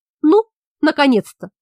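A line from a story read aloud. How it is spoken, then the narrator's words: Laughing. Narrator (Russian): засмеялся призрак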